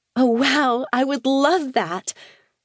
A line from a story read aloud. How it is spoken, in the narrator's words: she said, her voice expressing her enthusiasm